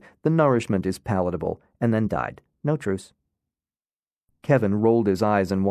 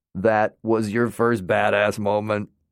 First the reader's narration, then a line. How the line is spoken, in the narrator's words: the colonel laughed